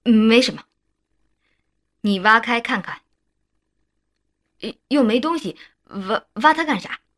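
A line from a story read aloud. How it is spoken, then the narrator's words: Frightened stammering. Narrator (Chinese): 张武顿时脸色发白，结结巴巴地说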